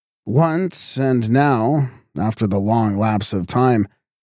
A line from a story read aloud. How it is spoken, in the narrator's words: he chuckled gleefully at the recollection